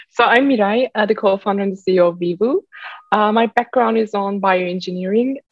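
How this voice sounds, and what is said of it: Turkish accent. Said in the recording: “if anyone's wondering where the accent's from, it's from she's from Turkey”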